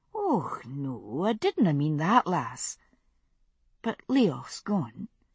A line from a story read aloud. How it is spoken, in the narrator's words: she added in a softer tone